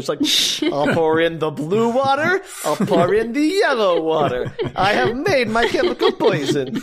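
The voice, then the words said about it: Put-on accent. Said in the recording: “I like this accent. ... It's so good.”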